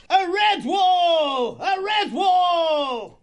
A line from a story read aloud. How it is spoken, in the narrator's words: The warrior mouse roared out